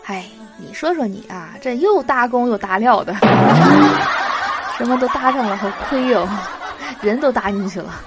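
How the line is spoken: Lamenting exclamation. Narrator (Chinese): 另一个设计师感叹说

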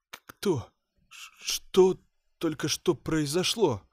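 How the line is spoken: Trembling voice. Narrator (Russian): дрожащим голосом отвечал ей я

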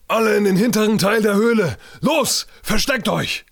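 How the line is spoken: Roaring over commotion. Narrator (German): brüllte Hypatia durch den allgemeinen Aufruhr

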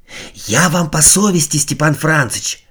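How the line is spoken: Barely audible whisper. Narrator (Russian): продолжал едва слышным шепотом

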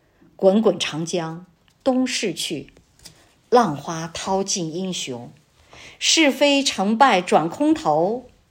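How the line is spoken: Sighing. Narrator (Chinese): 古人都叹

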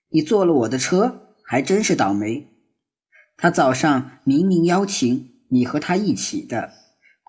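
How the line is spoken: Mocking smile. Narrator (Chinese): 木石榴嘴角浮起一丝嘲讽的笑

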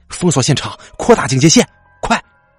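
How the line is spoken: Shout. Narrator (Chinese): 王猛向小谭喊

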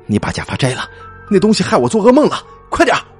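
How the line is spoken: Nearly shouting. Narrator (Chinese): 窦门一醒来，几乎是吼着对香洲说

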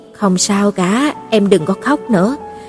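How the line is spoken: Gentle, soothing. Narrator (Vietnamese): Giang Ly dịu dàng nói

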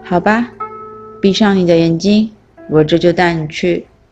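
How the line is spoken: Calm old man. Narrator (Chinese): 老翁淡淡地说

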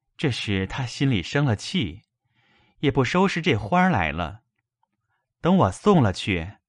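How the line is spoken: Sighing. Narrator (Chinese): 叹道

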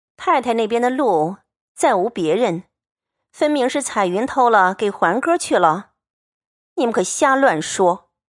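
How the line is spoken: Laughing. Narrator (Chinese): 晴雯……笑道

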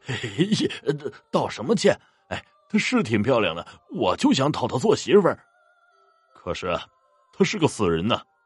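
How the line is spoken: Giggling. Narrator (Chinese): 这傻大个却笑嘻嘻的说

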